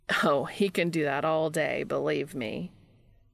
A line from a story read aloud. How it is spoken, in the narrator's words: Jimmy says with a dry laugh